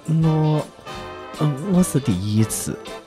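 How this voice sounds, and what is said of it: Very quiet, mosquito-like voice. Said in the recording (Chinese): “我用蚊子般的声音说”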